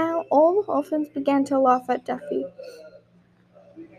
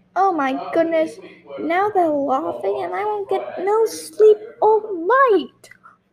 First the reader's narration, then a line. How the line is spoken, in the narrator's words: whined Tessie